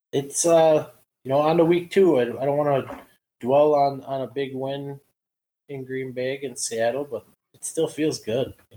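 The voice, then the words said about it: Wisconsin accent. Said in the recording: “he will still have that beautiful Wisconsin accent.”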